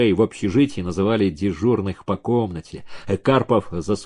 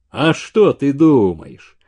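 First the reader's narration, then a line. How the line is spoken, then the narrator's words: Proud deep bass. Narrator (Russian): горделиво пробасил Столбов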